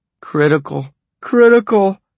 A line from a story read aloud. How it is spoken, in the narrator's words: Vera moaned